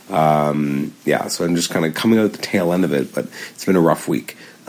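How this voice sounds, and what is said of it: Voice sounds different, unwell. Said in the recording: “as you can probably hear in my voice, uh, my voice is sounding different now”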